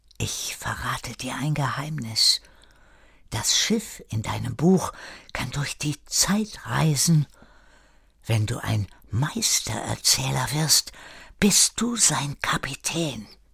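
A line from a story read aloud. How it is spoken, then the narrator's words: Whispered in ear. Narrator (German): Schwester Marina flüsterte ihm ins Ohr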